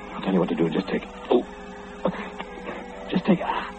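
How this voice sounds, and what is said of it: Breathless, panting speech. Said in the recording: “I'm out of breath.”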